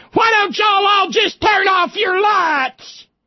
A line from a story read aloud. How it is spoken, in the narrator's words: the company wife hollered